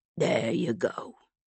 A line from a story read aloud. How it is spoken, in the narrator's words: Walter said softly